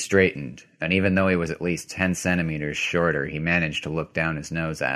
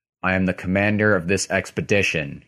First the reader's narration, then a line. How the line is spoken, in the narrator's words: he said